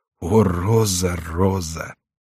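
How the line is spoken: Fervent exclamation. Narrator (Russian): Корнелий вскричал

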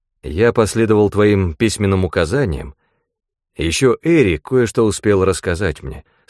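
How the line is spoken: Plain. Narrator (Russian): сказал я

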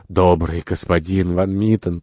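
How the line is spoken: Whisper. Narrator (Russian): прошептал

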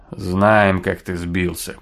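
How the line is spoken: Grumbling. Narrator (Russian): проворчал Энди

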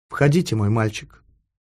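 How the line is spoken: Said calmly. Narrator (Russian): спокойно сказала

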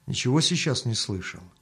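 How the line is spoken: Quiet question. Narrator (Russian): Мельник только спросил его негромко

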